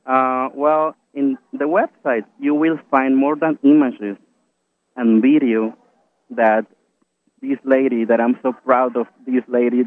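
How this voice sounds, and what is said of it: Very strong accent. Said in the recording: “I have a very, very strong accent”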